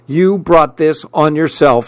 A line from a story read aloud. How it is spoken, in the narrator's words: she snapped